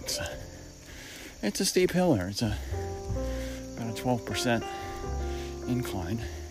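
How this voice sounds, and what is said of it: Slightly out of breath speech. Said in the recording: “I'm a little bit out of breath at a walk”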